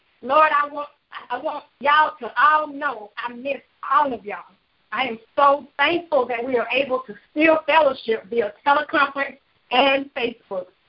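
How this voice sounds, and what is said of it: Southern US country accent. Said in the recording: “I am originally from Greenville, South Carolina ... I still have my southern country accent.”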